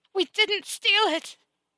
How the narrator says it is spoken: her sobs devolving into screams

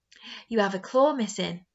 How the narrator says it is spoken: I exclaim

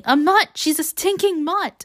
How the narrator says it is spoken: Peeta keeps yelling

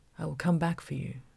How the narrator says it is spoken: he murmured

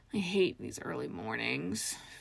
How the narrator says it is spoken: Feral grumbled

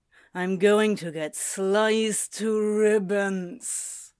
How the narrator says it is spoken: Crowley groaned, long and loud

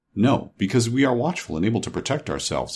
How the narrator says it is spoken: answered the captain

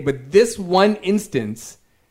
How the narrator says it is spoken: she yelled

